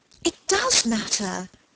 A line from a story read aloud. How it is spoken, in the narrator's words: cried Margaret